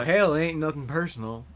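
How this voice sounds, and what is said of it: Slow put-on southern accent. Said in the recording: “I give you a southern accent ... you got a good one. Nice and slow.”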